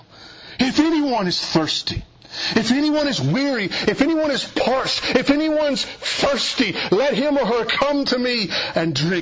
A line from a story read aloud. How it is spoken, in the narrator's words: Jesus stands up and screams to the people